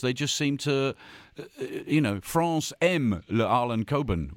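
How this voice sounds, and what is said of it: Put-on French accent. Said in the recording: “Are you French? That accent. ... It was like I was in Paris cheese shop.”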